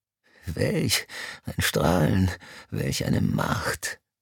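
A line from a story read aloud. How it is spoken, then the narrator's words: Gasping. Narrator (German): keuchte Mr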